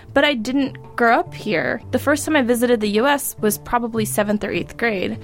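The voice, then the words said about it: American accent. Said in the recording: “sounded American by the time I was 10. As you can hear, I have an American accent”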